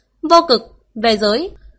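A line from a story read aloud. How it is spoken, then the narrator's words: Cold. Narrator (Vietnamese): giọng lạnh lùng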